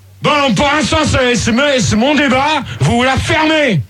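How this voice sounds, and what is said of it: Shouting angrily. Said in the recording (French): “mais hurle pas ... t'as une voix plus jolie quand tu cries”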